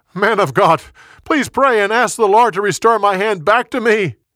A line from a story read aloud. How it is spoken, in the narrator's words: He yelled again